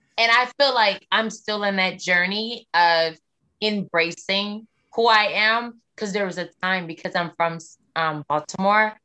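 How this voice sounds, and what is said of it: Slight Southern American accent. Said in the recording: “of course I can hear a little bit of a Southern accent ... I'm not too Southern, like a real Southerner ... there is an accent. I don't talk like a Northerner”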